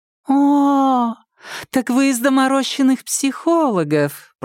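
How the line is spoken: Drawling. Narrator (Russian): протянула она

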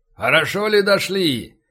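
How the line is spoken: Shout through tin megaphone. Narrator (Russian): крикнул в жестяной рупор крепкий мужик

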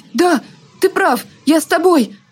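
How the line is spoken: Young woman's exclamation. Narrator (Russian): воскликнула одна невзрачная девушка

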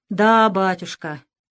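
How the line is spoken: Sighing. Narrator (Russian): вздохнул Щепкин

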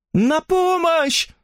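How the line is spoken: Weak cry. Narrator (Russian): слабо крикнула миссис Эллис

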